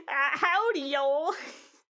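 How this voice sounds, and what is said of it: Put-on cowboy accent. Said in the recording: “what was his accent? Cowboy. He's a cowboy.”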